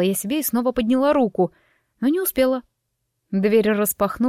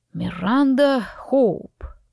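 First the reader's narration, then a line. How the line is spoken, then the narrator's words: Drawl. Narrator (Russian): протянул он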